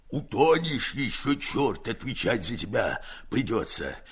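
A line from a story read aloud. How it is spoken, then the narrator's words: Hoarse. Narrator (Russian): хрипит Герасим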